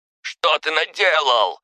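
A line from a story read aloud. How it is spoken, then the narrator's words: Yelled. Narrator (Russian): заорал Кононов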